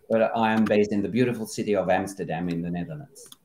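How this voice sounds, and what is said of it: French-Australian accent. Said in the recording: “I am actually French-Australian. You might hear that from the accent.”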